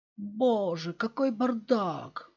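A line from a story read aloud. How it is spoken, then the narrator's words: Exclaimed. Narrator (Russian): воскликнула Кэтрин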